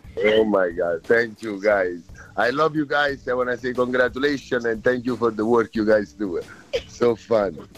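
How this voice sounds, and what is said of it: Italian accent. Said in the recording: “I absolutely love your accent. It's awesome. I'm Italian, but not as legit as you are”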